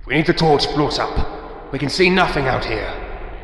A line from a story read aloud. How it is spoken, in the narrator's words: barks